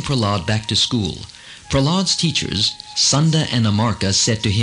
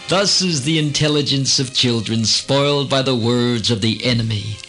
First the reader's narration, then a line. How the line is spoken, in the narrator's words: Startled, Hiranyakasipu laughed sardonically and said